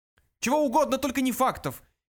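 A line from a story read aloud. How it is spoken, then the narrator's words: Breathless shout. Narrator (Russian): едва переведя дух, закричал Врумфондель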